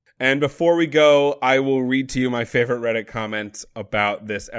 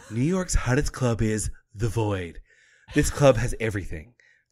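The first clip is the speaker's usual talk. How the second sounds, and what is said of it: Weak impression of SNL's Stefan. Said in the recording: “I'm not going to do a very good impression, but it is a impression of Stefan from SNL.”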